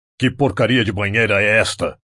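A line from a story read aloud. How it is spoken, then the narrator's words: Roaring. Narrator (Portuguese): rugiu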